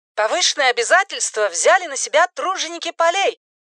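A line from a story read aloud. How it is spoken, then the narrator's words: Brisk barking female voice. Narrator (Russian): бодро пролаял женский голос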